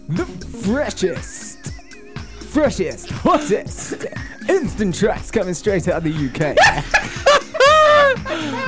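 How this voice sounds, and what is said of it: Radio DJ host voice. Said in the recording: “can you do your radio voice? ... That's what DJ hosts, radio hosts do”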